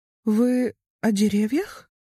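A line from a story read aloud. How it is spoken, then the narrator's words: Uncertain, childlike. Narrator (Russian): спросила она, и ее собственный голос прозвучал неуверенно, почти по-детски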